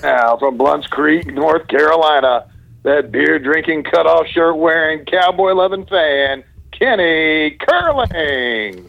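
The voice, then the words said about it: Announcer-style PA voice. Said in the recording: “my PA voice”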